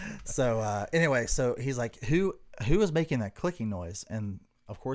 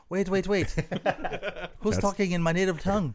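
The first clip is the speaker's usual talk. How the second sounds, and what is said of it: Put-on foreign accent. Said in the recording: “I don't even know why I'm doing this accent”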